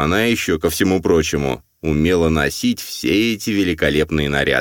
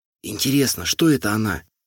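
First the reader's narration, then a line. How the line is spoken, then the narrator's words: Whispered question. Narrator (Russian): Шепотом спросила Лена Акаемова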